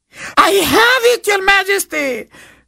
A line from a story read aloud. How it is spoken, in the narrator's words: the servant cried